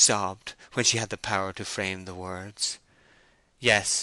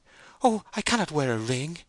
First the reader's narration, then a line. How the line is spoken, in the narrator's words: she exclaimed